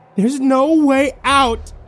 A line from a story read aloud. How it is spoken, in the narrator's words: screamed at him, right in his face